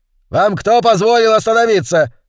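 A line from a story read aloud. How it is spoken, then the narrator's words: Yelling. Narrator (Russian): завопил он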